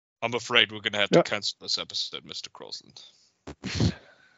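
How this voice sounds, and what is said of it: British accent, James Bond-style Connery. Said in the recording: “I can't do the British accent ... I didn't realize James Bond ... Connery”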